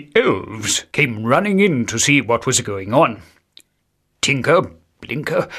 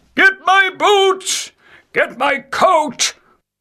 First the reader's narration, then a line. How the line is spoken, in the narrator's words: run round in circles, shouting